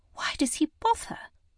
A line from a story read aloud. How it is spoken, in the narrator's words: Lily muttered